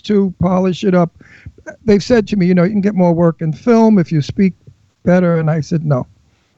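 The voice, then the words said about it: Brooklyn accent. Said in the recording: “They love the Brooklyn accent there ... everybody loves your accent”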